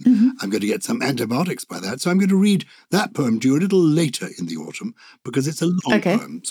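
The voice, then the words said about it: Rough, hoarse voice. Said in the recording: “my voice is a bit rough today and I keep coughing”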